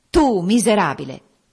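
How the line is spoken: Deeply contemptuous. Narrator (Italian): disse il re dei fantasmi in un tuono più sprezzante che mai

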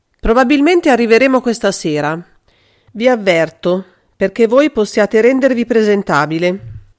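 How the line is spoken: Indifferent voice. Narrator (Italian): disse con voce indifferente

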